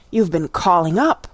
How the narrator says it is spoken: in a hoarse, excited tone

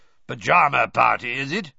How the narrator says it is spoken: he growled up the stairs

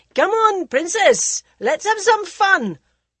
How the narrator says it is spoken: shouting over his shoulder

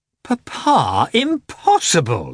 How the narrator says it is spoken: exclaimed Kitty

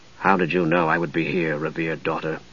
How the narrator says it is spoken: Dalimar asked in an undertone, seemingly not altogether pleased

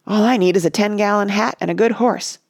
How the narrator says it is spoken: said Rush

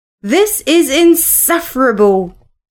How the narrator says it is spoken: he exclaimed

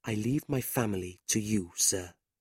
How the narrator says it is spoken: he whispered

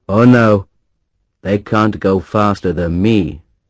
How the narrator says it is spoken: said

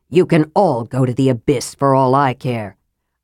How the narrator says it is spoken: Raistlin said, adding bitterly

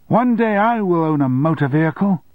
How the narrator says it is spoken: The child shouted

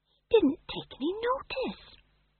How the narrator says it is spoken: whispered Tom John

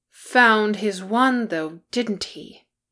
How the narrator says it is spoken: Bofur growled

